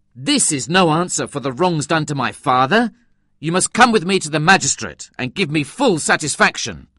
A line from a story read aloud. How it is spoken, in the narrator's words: I exclaimed angrily